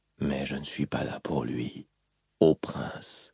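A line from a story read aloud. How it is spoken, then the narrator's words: Whispered. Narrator (French): chuchota-t-il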